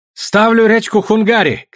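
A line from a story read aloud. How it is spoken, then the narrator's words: Shouting. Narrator (Russian): кричал Чензе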